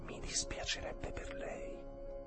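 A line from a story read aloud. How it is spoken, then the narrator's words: Whisper from behind. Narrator (Italian): La voce dietro di lui sussurrò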